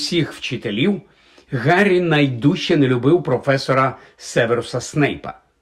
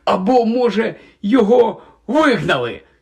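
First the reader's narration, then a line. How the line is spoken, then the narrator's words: Excited exclamation. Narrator (Ukrainian): захоплено вигукнув Рон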